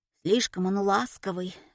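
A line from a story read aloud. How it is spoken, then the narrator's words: Sighing. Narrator (Russian): вздохнула Машка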